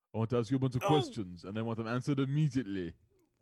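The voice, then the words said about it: Bad bodybuilder-actor impression, Austrian accent. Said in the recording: “my horrible Arnold Schwarzenegger impression”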